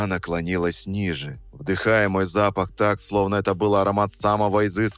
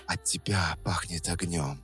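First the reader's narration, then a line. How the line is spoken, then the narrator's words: Quiet. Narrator (Russian): продолжила она тихо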